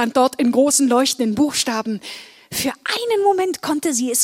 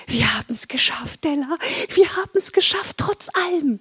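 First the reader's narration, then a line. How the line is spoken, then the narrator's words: Whisper. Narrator (German): flüsterte sie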